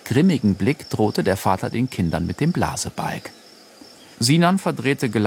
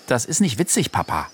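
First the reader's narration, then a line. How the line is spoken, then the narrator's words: Stern. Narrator (German): sagte Chader streng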